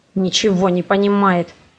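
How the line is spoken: Grumbled through teeth. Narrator (Russian): проворчал он сквозь зубы

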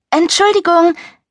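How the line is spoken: Calling out. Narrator (German): rief ich, während ich neben meinem Koffer herstarkste und versuchte, ihn vom Rollband zu hieven

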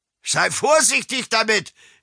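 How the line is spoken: Calling from shore. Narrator (German): rief Josef Steinhaus vom Ufer aus

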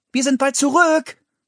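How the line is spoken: Called out. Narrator (German): rief

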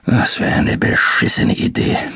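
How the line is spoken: Murmured. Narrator (German): murmelte er

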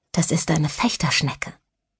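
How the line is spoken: Quiet secretive voice. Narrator (German): sagte Sandra mit leiser Stimme, als handelte es sich um ein Geheimnis

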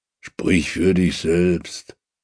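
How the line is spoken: Growl. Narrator (German): knurrt Ragnar

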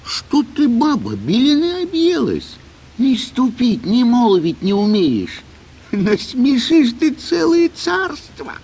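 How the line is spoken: Frightened old man pleading. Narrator (Russian): Испугался старик, взмолился

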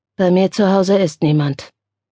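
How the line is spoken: Toneless reply. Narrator (German): entgegnete Armand mit tonloser Stimme

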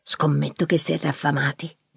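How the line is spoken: Whispered. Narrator (Italian): sussurrò

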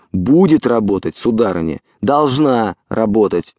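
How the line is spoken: Director's irritated speech. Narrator (Russian): раздраженно проговорил режиссер

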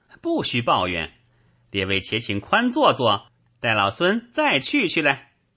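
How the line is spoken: Laughing. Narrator (Chinese): 行者笑道

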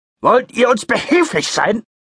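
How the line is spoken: Booming voice. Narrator (German): donnerte er

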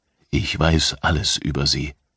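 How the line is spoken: Stranger whispering. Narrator (German): flüsterte der Fremde

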